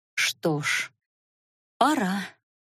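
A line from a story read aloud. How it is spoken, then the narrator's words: Muttered. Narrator (Russian): пробормотала Наташа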